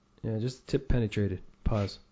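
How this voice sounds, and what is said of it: Put-on sexy, seductive voice. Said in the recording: “your sexy voice ... You try to up your sexy?”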